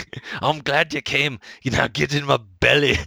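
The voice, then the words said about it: Fat Bastard-style Santa character voice. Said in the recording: “Tom Hanks doing an impersonation of Fat Bastard as Santa”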